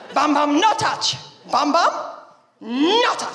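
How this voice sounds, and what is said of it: Toddler voice with Spanish accent. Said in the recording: “she's got a Spanish accent”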